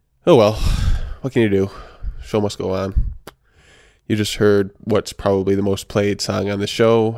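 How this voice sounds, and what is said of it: Miserable, low-spirited voice. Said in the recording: “I'm feeling kind of miserable today. You can probably tell in my voice”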